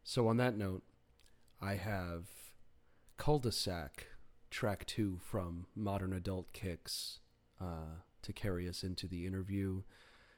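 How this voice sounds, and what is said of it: Raspy, hoarse speaking voice. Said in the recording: “raspy ramblings”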